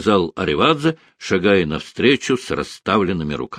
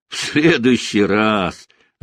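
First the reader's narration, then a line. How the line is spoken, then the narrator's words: Laughing. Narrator (Russian): рассмеялся маршал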